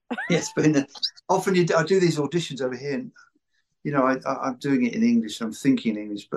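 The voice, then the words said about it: British accent. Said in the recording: “So you got a just total British accent.”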